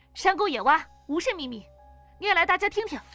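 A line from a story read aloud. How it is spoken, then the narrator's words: Loud, stern. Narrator (Chinese): 黄子红沉着脸大声道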